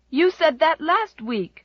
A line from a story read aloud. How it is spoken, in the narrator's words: cried Jem indignantly